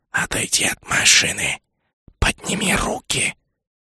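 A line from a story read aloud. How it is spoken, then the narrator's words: Hissing reptile. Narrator (Russian): Снова прошипел ящер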